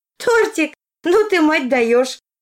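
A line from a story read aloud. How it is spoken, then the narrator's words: Laughing. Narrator (Russian): рассмеялась Арина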